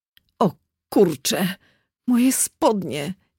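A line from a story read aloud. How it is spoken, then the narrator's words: Groaned. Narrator (Polish): jęknął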